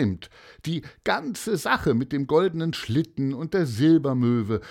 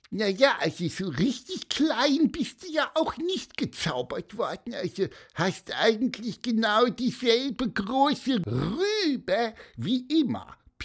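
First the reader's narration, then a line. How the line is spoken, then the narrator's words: Squeaky voice. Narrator (German): piepste er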